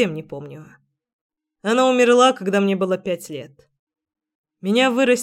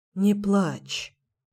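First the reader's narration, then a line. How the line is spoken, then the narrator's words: Crouching whisper, male. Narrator (Russian): прошептал он, присев передо мной на корточки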